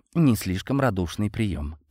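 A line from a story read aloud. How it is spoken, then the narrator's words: Muttered. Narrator (Russian): пробормотал Шо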